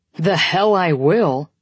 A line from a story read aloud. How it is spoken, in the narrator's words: Corbin growls